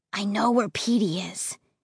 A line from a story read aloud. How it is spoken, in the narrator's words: Josh whispered